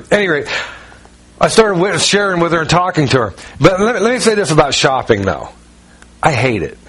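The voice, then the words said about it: North Carolina-influenced accent. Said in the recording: “originally Ohio, but we lived in North Carolina for 17 years. "Oh, that's where the accent comes." And so she's talking about the accent.”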